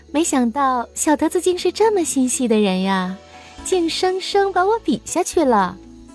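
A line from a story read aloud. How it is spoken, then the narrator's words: Teasing. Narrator (Chinese): 海棠看见小德子这么细心，于是取笑道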